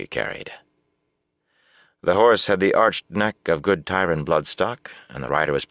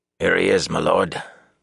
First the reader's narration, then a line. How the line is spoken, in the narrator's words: the sentry said in a hoarse voice